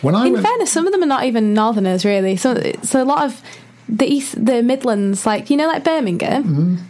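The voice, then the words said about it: Leeds northern English accent. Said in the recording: “you have lovely Leeds northern accent”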